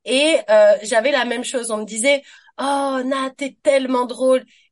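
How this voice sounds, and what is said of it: French-from-France accent. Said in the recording (French): “avec mon accent, ça sent que je viens de France”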